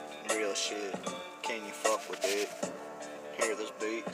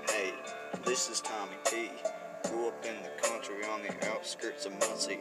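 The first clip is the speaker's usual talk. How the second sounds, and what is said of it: Country twang rap delivery. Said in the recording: “I'm gonna go twang on this beat. ... sounds pretty country ... might go a little twang in it”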